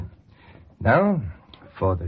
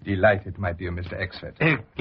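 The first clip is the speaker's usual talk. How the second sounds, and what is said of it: Put-on foreign aristocrat accent. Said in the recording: “the switch to the Baron's accent”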